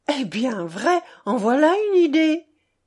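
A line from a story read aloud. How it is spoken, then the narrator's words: Smiling exclamation. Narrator (French): s'exclama-t-elle en souriant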